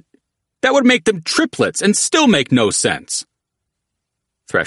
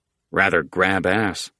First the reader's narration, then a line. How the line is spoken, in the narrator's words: Polecat mumbled